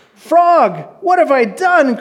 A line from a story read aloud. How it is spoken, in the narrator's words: cried Toad